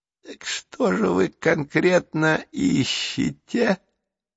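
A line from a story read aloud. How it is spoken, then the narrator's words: Wheezy rasp. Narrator (Russian): просипел уродец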